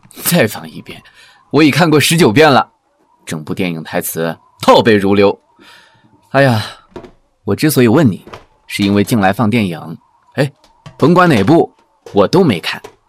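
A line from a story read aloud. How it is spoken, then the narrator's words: Calm, faint smile. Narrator (Chinese): 潘荣淡淡一笑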